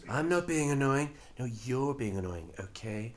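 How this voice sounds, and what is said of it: Donald Trump impression. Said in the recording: “all right, Donald, this is getting a bit irritating now ... your Donald Trump impression”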